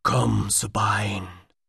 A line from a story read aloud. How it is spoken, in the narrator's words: Jamun whispered